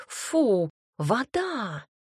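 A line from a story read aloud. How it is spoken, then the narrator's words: Indignant cat snort. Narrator (Russian): возмущенно фыркнула кошка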